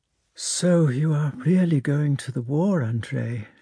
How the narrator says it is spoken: she said, sighing

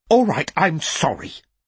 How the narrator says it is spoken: she said furiously, her eyes shining with tears

